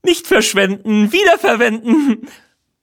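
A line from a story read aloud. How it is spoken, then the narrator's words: Barking. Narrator (German): bellt Rocky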